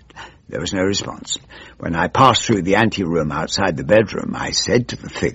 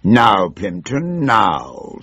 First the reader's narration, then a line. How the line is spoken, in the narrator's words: growled